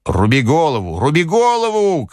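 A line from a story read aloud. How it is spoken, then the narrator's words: Crowd shouting. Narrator (Russian): кричали ему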